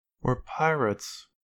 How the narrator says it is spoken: she muttered

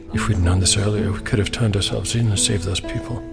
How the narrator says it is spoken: he muttered

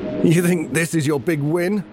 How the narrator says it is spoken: Gareth Heim's voice quavers

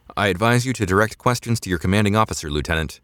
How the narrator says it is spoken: the guard said

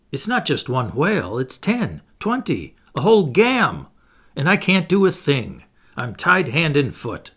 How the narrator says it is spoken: he exclaimed

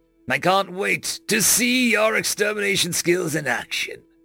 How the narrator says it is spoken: the doctor chuckled

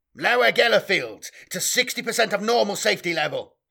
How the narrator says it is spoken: he yelled

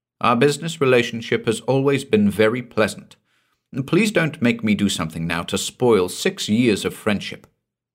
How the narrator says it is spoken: she said at last, firmly

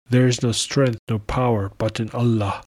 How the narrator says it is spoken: the Khalifa exclaimed

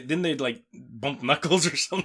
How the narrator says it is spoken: They snapped at the same time or something

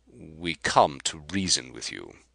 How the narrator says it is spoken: replied Carr haughtily

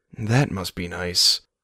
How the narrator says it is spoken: Milo muttered

